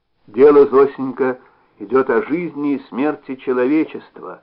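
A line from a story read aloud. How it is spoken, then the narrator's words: Even, dry-lipped, recited tone. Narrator (Russian): облизывая пересохшие губы, словно читая книгу, ровным голосом заговорил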